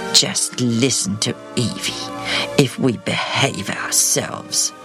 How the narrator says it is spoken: Zared said under his breath

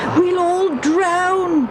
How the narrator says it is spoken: they yelled

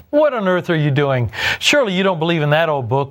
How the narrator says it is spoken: one of them jeered

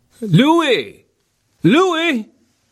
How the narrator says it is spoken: Tony Zamperini yelled

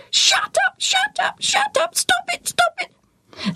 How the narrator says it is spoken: the bird still screaming

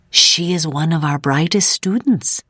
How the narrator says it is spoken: she whispered to Ida

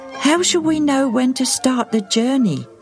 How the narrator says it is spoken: Agate asked anxiously

